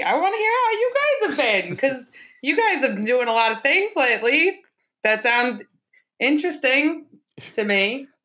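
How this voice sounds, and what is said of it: Made-up comedic accent. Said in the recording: “I don't know what my accent is, and I love it, and I'm finding it ... It's like if Andrew Dice Clay and Larry David had a baby.”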